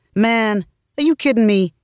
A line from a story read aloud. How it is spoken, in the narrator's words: He said, laughing